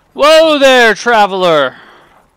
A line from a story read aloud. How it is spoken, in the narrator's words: And one of the girls loudly says